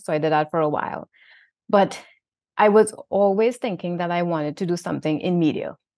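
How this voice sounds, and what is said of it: Trinidadian accent. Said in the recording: “my Trinidad accent,... apparently I spoke a little clearer”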